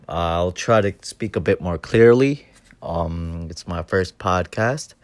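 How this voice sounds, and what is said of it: Quiet, low voice. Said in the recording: “my voice is a bit low at this time”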